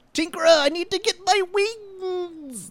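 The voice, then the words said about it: Weird put-on British-ish character voice. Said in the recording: “He speaks in that weird British accent the whole time. ... That's not even British.”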